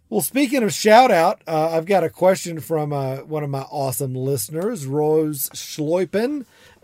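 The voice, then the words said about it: Strong Southern US accent. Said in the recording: “I've got this big southern accent ... I'm from South Georgia”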